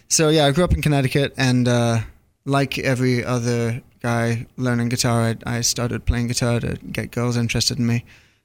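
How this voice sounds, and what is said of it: Slight English accent. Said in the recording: “I sensed the accent a little bit there... Just a little bit... it kind of keeps the accent”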